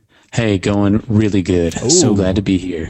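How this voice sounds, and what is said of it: Deep radio voice, sounds congested. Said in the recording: “You're talking like that ... going with that radio voice, got this cold going”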